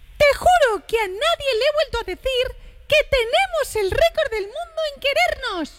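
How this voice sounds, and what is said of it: Cartoon mouse character voice. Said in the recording (Spanish): “letra de la canción leída por ... poniendo la voz de Mickey Mouse”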